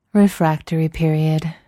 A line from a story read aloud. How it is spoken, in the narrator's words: sighs